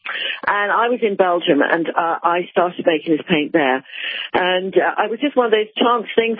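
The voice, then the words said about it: English accent. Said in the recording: “As you probably can hear from my accent, I'm English. I come from Oxford.”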